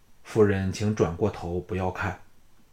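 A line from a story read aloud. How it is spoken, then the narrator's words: Low, with inward sigh. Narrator (Chinese): 项少龙暗叹一声，低声向庄夫人说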